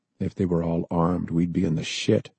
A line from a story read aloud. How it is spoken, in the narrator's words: the sergeant said softly